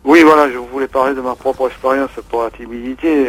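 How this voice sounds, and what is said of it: Sing-song southern French accent. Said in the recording (French): “on entend l'accent, hein, qui chante, il y a beaucoup de soleil là dans votre voix”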